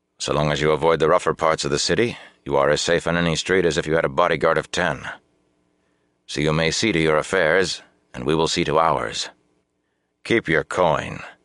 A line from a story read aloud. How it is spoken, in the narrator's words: he added coldly